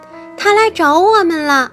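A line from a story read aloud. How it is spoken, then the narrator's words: Excited cry. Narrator (Chinese): 思思仙女激动地叫起来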